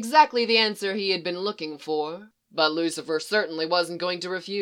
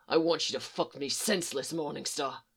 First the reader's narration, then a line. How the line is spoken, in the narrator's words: the mischief and lust and fire rushed back into his eyes as he growled